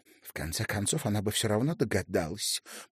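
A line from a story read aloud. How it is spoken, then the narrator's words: Whisper. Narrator (Russian): прошептала Аста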